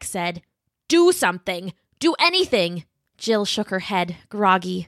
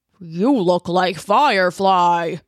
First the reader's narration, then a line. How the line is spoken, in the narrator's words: he grumbled at her, like she was no more than an annoying fly whose buzzing was giving him a headache